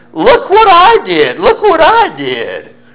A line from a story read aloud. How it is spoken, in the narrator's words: started screeching